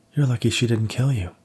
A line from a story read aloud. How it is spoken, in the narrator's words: Diane exclaimed